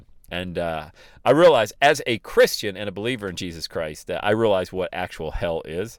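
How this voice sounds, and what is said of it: Excited, pumped-up voice. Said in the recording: “it gets me jacked up. And you can probably hear it in my voice”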